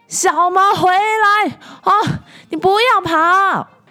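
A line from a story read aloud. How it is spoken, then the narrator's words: Mother shouting. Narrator (Chinese): 妈妈对他大喊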